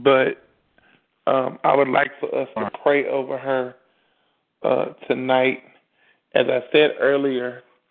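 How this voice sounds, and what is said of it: Strained, fading voice. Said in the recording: “My voice is starting to try to leave me.”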